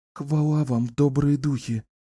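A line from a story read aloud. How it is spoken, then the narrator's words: Breathless woman. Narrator (Russian): выдохнула женщина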